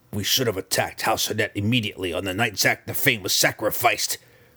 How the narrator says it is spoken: she dared to grumble

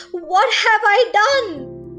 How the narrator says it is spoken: he cried

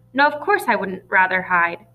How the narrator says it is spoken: Jen said irritably

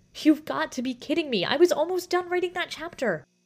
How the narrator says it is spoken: the girl cried in despair

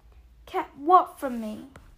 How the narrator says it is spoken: said Harry eagerly

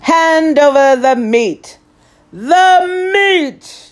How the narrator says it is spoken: we all roared

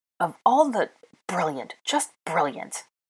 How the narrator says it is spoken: muttered

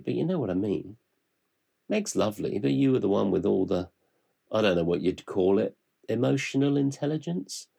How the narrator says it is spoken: Charly laughed

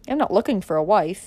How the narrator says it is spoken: he said

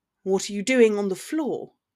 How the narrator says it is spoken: he countered coldly from the kitchenette

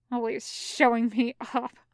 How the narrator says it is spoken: Zhang Cheng grumbles

